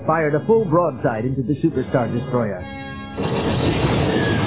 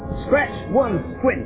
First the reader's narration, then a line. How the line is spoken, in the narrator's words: he shouted